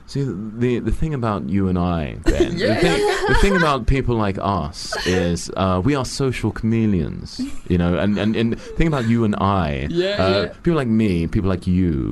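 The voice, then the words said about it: Impression of an interviewee's voice. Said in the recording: “Good impression.”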